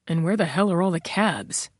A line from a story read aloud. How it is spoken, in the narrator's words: muttered